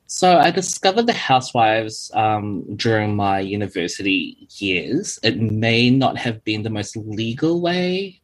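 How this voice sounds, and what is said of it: New Zealand accent. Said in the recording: “I have a very different accent to where I'm living now. So this, I feel like I have a typical New Zealand accent. ... Kiwi.”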